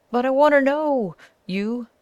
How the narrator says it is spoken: shrieked the guide

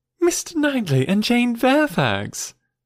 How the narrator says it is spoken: exclaimed Emma

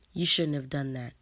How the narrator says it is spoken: she says

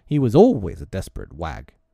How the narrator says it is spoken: the butcher exclaimed

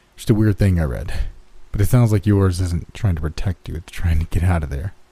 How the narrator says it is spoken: said with a laugh

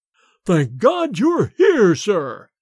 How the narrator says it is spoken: boomed forth in Bates's sepulchral voice

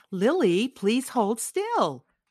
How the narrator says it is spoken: Mother said again

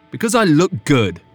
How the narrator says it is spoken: Griffin snapped

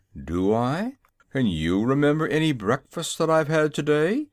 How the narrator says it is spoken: growled Jim, as if he resented Zeb's speech

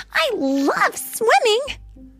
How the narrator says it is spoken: Alex cried

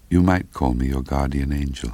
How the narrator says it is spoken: After a second or two of silence between us, she gently added

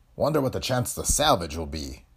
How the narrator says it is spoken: growled McMaster, the chief engineer

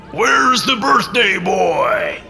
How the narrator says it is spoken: the man bellowed

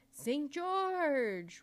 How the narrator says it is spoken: roared the magician impatiently

